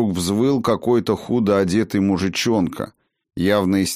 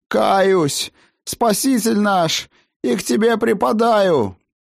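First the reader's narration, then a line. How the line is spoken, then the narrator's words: Howling. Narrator (Russian): Взвыл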